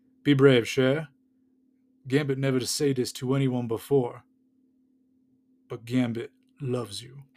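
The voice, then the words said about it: Attempted Gambit Cajun accent impression. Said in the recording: “I'm going to do the accent. It's going to be terrible, so I apologize now.”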